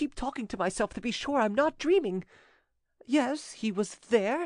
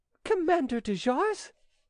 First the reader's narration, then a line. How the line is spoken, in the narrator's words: She recoiled with fright, exclaiming